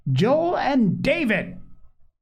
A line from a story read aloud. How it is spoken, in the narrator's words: called Polly again in her loudest tones